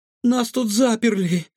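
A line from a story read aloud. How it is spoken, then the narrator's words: Breathless exclamation. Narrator (Russian): выдохнула Илона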